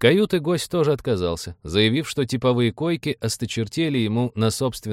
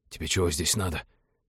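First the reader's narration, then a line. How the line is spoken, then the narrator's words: Angry whisper. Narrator (Russian): сердитым шепотом поинтересовался он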